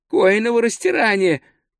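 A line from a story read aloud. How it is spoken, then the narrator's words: Groaning. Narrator (Russian): простонал он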